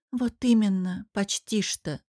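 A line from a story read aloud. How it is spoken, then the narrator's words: Sighing. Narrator (Russian): вздохнула Виктория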